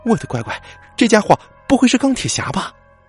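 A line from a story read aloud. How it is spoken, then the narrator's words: Startled cry. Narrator (Chinese): 古墓迪惊声呼喊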